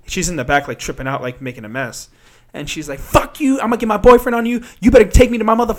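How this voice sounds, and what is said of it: Usual voice. Nothing is said of it.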